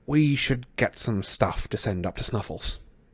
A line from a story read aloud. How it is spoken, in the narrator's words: Harry muttered